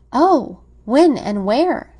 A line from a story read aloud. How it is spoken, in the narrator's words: she cried, and then she stopped short